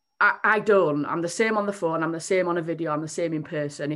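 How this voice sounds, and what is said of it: Strong Yorkshire accent. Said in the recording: “I have a quite a strong Yorkshire accent”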